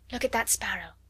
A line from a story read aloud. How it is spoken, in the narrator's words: whispered Sarah